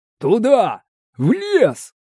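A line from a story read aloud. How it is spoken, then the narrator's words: Shout. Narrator (Russian): Эльторо крикнул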